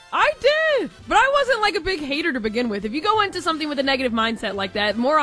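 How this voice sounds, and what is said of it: Usual voice. Nothing is said of it.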